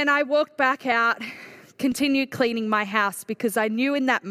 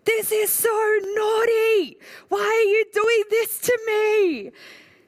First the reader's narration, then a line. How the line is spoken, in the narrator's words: I was probably yelling